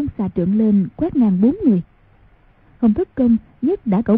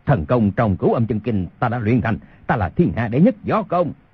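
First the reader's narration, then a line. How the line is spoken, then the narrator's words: Loud shout. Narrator (Vietnamese): Âu Dương Phong y quát lớn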